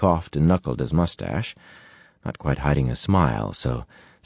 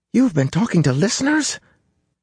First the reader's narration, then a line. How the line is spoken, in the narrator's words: Matt's voice squeaked like a rusty hinge